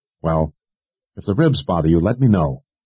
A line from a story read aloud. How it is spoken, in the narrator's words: Kara said dryly